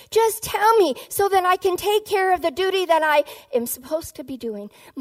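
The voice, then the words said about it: Exasperated delivery. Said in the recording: “hear the exasperation in her voice?”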